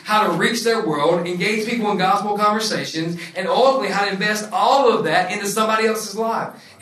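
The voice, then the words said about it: Non-local regional accent. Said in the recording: “I'm not from here, if you can't tell that, my accent.”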